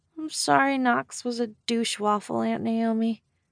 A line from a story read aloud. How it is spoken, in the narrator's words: Waylay said, her voice muffled